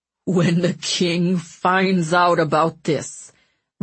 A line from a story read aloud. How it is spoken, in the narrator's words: Ratcliffe snarled, his lips quivering